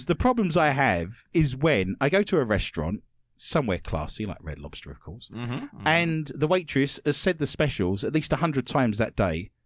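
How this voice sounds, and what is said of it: British accent. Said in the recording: “more Americans struggle with my accent than I do with theirs ... they only get to hear the British one”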